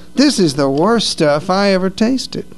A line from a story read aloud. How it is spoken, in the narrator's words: exclaim in disgust